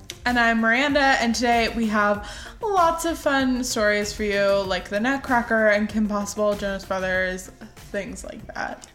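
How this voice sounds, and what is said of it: Raspy, strained voice. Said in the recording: “shout out to how raspy my voice is, because I ruined it in the last episode”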